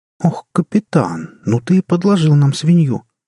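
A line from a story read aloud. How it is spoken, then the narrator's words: Indignant exclamation. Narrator (Russian): с негодованием воскликнула Джанет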